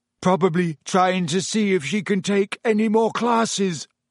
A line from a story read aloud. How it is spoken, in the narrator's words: yawned Ron